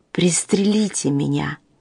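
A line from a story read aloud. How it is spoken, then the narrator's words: Mumbling through blood. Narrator (Russian): послышалось бормотание сквозь заливавшую лицо кровь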